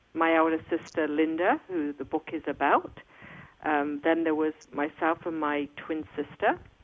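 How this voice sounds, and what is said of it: English accent. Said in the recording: “I do have an accent. I was born and raised in England, in Coventry”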